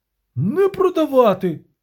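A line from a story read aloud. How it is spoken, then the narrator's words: Shouting. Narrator (Ukrainian): крикнув Денті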